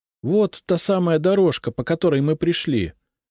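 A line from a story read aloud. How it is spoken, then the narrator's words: Joyful. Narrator (Russian): радостно сказала Лиза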